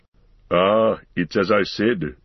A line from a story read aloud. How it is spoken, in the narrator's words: growled Gimli